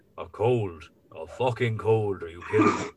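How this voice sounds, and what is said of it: Imitates another person's voice. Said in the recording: “Very good impression of Morris O'Doherty.”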